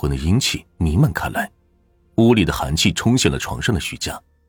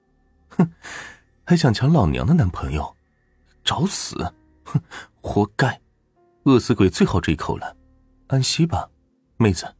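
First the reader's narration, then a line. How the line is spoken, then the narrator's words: Smug laugh. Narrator (Chinese): 得意的一笑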